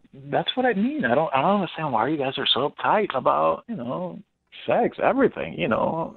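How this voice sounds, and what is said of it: Foreign accent, likely Spanish. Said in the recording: “is it my accent?”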